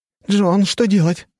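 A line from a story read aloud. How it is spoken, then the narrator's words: Anxious question. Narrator (Russian): взволнованно спрашивает Алисия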